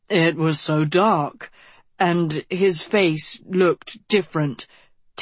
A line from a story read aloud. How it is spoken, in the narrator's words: Tedros moaned